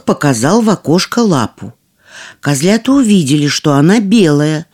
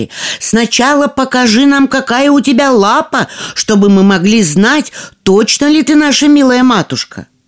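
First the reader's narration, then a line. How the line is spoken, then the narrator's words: Young goats shouting. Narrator (Russian): Козляточки закричали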